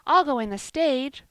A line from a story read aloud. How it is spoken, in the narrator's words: screamed Joel, who could scarcely see out of his eyes, he had cried so